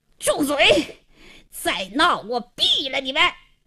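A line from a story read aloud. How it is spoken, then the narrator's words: Hoarse angry shout. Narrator (Chinese): 王经理 气得 嘶哑着嗓子喝道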